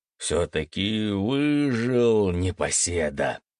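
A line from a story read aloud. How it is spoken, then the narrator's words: Warm good-natured grumble. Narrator (Russian): с искренней улыбкой, проворчал гость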